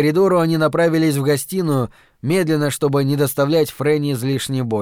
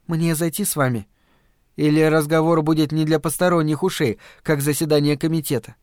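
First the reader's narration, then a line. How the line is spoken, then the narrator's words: Calm reply. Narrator (Russian): Стью, который спокойно ответил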